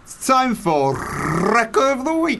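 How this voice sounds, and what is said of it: Exaggeratedly rolled R's. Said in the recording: “Don't roll your R's. You sound like a cunt.”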